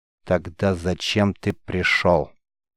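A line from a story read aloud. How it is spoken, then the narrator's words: Cold question, rejected girl. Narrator (Russian): холодно спросила отвергнутая девушка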